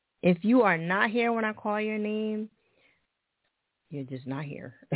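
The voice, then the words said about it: Mixed American East Coast accent. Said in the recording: “You like my accent? It's all over the place, right? I know. It's Jersey, New York, Philly, California, all over.”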